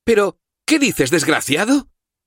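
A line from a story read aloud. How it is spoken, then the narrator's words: Exclamation. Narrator (Spanish): exclamó la condesa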